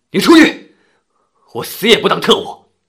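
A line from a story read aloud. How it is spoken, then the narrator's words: Angry. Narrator (Chinese): 白衣娜怒目圆瞪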